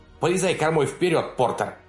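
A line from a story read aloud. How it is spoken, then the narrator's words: Barking boatswain. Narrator (Russian): рявкнула боцман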